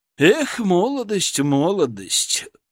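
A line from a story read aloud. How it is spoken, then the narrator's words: Exhaled. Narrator (Russian): выдохнул Преображенский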